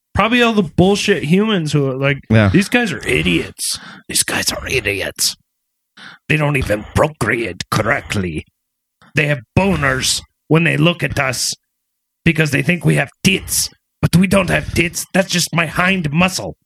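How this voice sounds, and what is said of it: Bad Triumph the Insult Comic Dog impression. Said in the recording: “it's that insult comic dog is here live on the podcast ... It's really bad ... You became the insult comic dog for some reason.”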